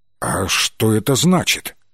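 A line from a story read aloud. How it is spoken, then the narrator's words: Alarmed voice. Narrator (Russian): встревоженным голосом спросил он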